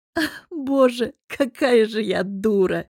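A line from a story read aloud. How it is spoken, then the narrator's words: Laughing, sing-song, then hoarse. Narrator (Russian): Расхохотавшись, протянул я нараспев и хрипло добавила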